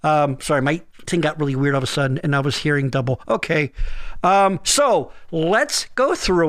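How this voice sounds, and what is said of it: Usual voice. Nothing is said of it.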